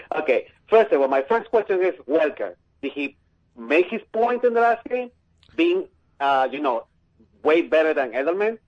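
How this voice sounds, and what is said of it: Heavy Peruvian Spanish accent. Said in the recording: “From my heavy accent, eh? I'm from Peru.”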